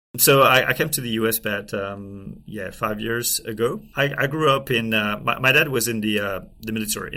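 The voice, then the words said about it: French accent in English. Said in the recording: “That is not a New York accent, I hear. ... obviously you can hear that. I'm from France. ... can't hide it.”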